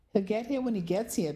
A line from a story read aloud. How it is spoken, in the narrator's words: Penny said breathlessly